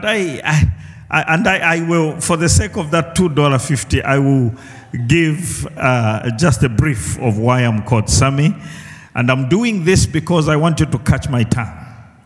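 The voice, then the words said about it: South African accent. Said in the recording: “I speak South African or wherever I was born ... I speak a bit different from you”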